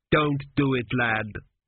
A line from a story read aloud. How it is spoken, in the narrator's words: he said bitterly